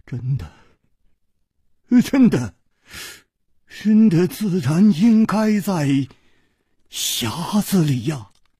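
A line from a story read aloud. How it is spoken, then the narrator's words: Trembling voice. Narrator (Chinese): 公子金半花的面色 又变了，他颤声说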